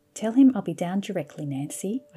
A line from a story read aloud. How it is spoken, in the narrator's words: said calmly